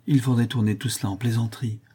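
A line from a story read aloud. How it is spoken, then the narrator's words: Plain. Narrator (French): dit Catherine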